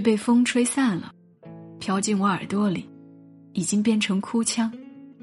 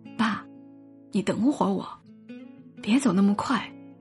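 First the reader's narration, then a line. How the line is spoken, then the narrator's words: Quiet. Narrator (Chinese): 我小声说了一句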